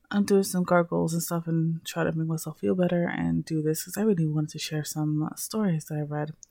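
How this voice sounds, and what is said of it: Low, rough sore-throat voice. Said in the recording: “my voice is a little low today. I'm not feeling very well... my throat has been fucked up”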